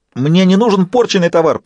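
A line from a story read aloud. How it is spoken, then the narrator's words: Squeaky clown voice. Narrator (Russian): пропищал паяц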